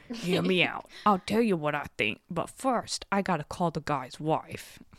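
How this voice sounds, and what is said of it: Put-on New York detective accent. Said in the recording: “I should be reading this in a New York accent ... Why do you sound like an animated rat who, like, rules the sewer system? ... that's my New York detective voice”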